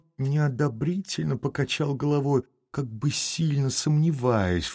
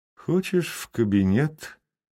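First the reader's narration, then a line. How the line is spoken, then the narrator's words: Gloomy, frowning, in French. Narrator (Russian): мрачно хмурясь сказал Левин по-французски Степану Аркадьичу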